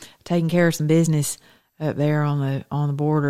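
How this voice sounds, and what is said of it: Usual voice. Nothing is said of it.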